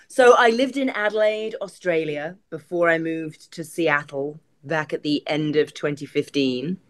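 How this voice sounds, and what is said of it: Mixed English accent, hint of Ohio. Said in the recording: “that accent's a little messed up ... I hear a little Ohio in that accent”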